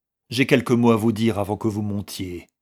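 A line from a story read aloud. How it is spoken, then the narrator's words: Curt captain. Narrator (French): lui dit sèchement le capitaine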